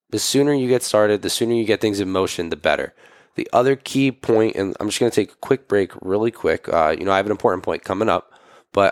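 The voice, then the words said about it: Hoarse voice. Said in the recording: “My voice has been a little hoarse, so you can probably tell listening to this”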